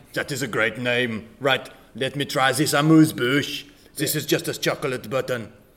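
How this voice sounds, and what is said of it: Put-on French accent. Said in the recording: “you sound amazingly like Fernando? ... Your French accent is wonderful.”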